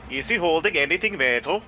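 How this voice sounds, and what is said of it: Put-on transatlantic accent. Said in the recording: “Say that again in a transatlantic accent ... That's the transatlantic accent ... There you go.”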